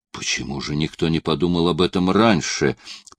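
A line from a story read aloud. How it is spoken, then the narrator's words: Whisper. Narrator (Russian): прошептал Л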